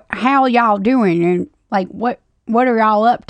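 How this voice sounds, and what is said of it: Put-on twangy Louisiana accent. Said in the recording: “imagine having like a Louisiana accent ... What is a Louisiana accent? ... Twangy? ... Yeah, some twangy. Just add some extra R's where they don't belong.”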